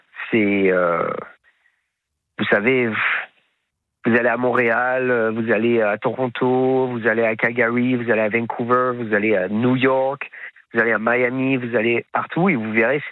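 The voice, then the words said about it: Slight Québécois French accent. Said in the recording (French): “vous avez ramené un petit accent québécois”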